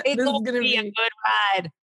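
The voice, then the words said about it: Creepy truck driver voice. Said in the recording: “I sound like a creepy truck driver right there? Like you got a purdy mouth.”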